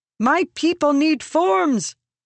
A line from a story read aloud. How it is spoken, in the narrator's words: she shouted up toward the vast entity